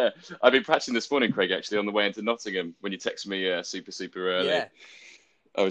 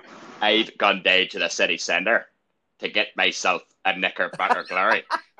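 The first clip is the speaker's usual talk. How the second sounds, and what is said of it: Put-on Northern Irish accent. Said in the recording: “I was practicing my Northern Irish accent to see how it goes. It's kind of there ... That's really good.”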